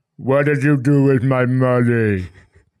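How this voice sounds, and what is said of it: Imitates another person's voice. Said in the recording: “That was my attempt at an Andre the Giant impersonation.”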